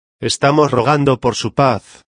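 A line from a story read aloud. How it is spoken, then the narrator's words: Kind, affectionate tone. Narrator (Spanish): dijo Silva con un tono de bondad y cariño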